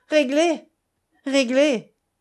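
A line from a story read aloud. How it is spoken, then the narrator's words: Sneered. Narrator (French): ricana-t-elle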